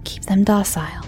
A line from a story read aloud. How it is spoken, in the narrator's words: Agatha whispered